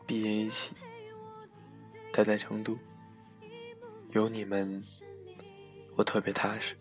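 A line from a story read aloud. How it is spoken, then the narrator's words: Mumbling. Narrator (Chinese): 他一直嘟嘟囔囔说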